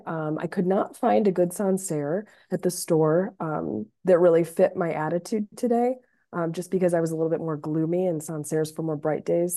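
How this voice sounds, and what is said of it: Hoarse, sick-sounding voice. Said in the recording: “I am getting over the tail end of a flu. That's why my voice is a little off the radar today.”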